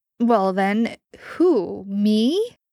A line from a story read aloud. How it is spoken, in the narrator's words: Jensen chuckled